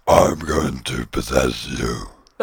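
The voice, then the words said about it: Very deep gravelly possessed voice. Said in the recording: “My deepest voice ... You sounded like Batman”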